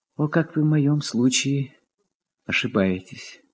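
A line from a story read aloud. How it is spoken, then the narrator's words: Quiet, conciliatory voice. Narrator (Russian): Подхватил тихим и примиряющим голосом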